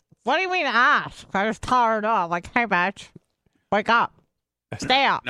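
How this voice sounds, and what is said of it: Imitates another person's voice. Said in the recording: “Why don't you go ahead and imitate me? Go ahead. Do your Bubba imitation.”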